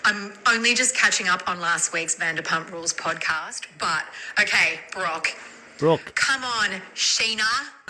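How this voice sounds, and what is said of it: Australian accent. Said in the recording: “a lady from Australia ... a quick lesson in Australian accents”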